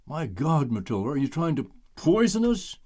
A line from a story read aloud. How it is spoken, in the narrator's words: Deputy Mayor Frank Blake loudly exclaimed